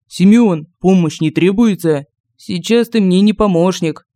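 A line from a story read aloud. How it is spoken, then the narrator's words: Glum reply. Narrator (Russian): уныло ответил Семен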